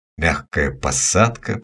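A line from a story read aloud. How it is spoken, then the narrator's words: Muttering. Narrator (Russian): пробормотал я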